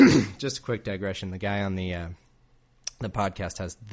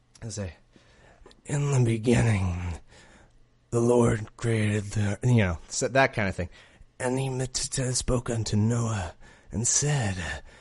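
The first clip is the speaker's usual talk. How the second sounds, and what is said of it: Mock pompous faux radio announcer voice. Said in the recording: “the most irritating voice ... some sort of stupid faux radio voice ... I could do a little impression of it ... just the most ridiculous”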